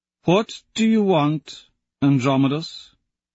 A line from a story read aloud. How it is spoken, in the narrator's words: The Sovereign asks slowly